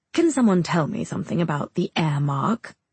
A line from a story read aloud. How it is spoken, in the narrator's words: He asks again in that cocky tone